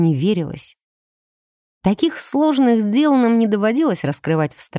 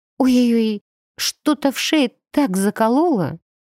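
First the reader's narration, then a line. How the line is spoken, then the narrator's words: Fake groan. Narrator (Russian): притворно застонала я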